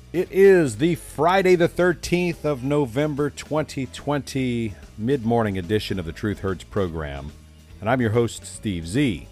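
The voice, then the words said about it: Cool radio DJ voice. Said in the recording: “with a cool DJ voice”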